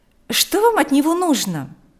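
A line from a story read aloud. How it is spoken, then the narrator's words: Irritated question. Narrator (Russian): раздраженно спросила Марьяна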